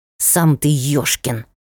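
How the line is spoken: Cat hissing. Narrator (Russian): прошипел кот

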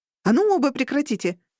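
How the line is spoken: Bark. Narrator (Russian): рявкнула

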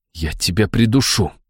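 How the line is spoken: Hiss. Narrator (Russian): прошипел я

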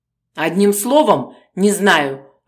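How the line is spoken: Irritated dismissal. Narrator (Russian): раздраженно отмахнулся Бережнов

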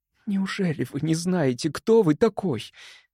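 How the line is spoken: Quiet question. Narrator (Russian): тихо поинтересовалась она

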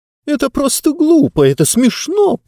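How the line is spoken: Squeaky voice. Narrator (Russian): пропищала книга

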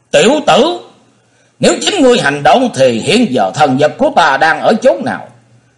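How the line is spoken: Roaring. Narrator (Vietnamese): nhị đầu thái tử gầm lên nói

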